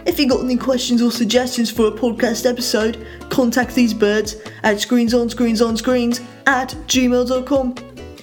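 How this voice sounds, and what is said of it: Put-on English accent. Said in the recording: “This English accent is here to lend much needed respectability and sophistication”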